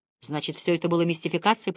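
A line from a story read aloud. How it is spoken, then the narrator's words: Muttered. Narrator (Russian): пробормотал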